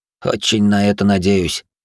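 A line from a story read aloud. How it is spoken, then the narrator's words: Heavy sigh, young man. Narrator (Russian): тяжело вздохнул парень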